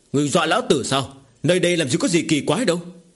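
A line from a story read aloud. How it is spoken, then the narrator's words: Shout. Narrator (Vietnamese): Tiền Thông quát lên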